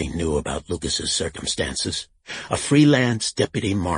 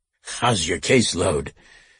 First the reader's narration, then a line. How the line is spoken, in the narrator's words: Duffy snorted and asked